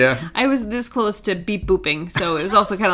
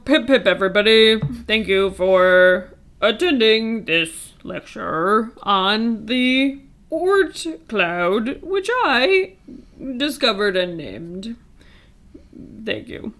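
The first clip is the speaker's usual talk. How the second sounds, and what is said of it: Attempted Nordic accent, British-sounding, robotic. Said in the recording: “It's not great ... It didn't sound like your other two voices ... trying to do a Nordic accent ... weird Britishisms ... kind of like a robot”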